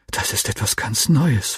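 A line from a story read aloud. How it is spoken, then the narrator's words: Whisper to friend. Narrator (German): flüsterte ich meinem Freund zu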